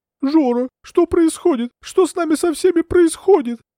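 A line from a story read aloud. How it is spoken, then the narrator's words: Inconsolable wife sobbing, muffled. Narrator (Russian): рыдала ему в плечо безутешная супруга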